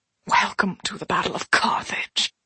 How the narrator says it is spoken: the thing whispered in Celine's ear, its words a crazed rasp, its accent refined

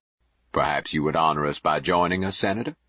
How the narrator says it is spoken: Jubal answered smoothly

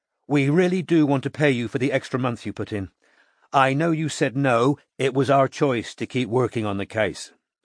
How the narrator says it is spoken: said Strike

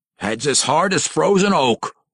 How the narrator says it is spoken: grumbled the dwarf

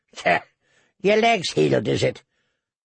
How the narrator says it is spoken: Noy snorted

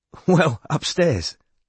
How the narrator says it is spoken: said Tegan, with a surprised laugh

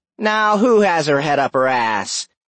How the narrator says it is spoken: Cora sneered

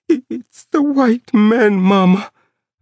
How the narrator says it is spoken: I kept on whimpering

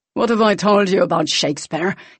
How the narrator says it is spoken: He snapped

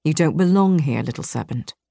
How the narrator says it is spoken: Vincent whispered in my ear

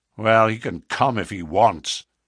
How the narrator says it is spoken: he said in a surly voice

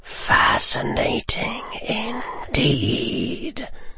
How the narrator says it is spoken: Voldemort hissed

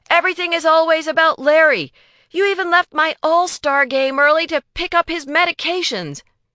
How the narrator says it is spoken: he blurts out

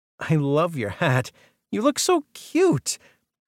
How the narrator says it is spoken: the pennant threader squealed

